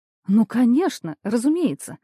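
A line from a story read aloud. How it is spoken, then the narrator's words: Exclamation. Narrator (Russian): воскликнула Бурмистрова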